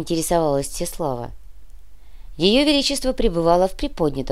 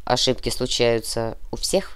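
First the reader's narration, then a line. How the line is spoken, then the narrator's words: Conciliatory tone. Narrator (Russian): примирительным тоном произнес Франц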